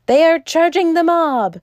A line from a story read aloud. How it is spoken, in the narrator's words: cried Bull in ecstasy of alarm